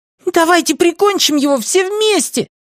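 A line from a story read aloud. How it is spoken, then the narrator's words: Fierce exclamation. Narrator (Russian): свирепо воскликнул самый мелкий трибут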